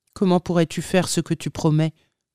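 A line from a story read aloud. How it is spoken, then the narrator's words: Plain. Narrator (French): demanda-t-il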